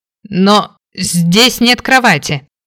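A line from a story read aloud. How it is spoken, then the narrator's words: Exclaiming. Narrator (Russian): воскликнул Кейн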